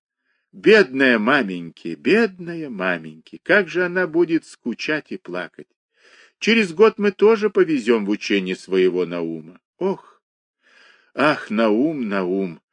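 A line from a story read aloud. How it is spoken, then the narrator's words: Sighing. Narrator (Russian): вздохнул Моисей Моисеевич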